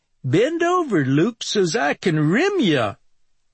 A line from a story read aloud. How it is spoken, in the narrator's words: in a hillbilly accent